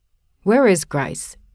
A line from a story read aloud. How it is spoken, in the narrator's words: asked he